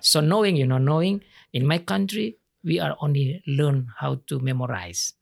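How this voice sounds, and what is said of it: Speaks English with an accent. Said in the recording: “It's my accent.”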